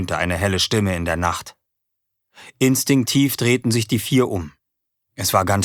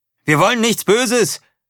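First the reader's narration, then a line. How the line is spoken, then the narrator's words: Calling out. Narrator (German): rief er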